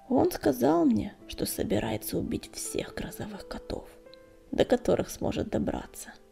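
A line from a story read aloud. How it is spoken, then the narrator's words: Grim. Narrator (Russian): мрачно ответил Огнегрив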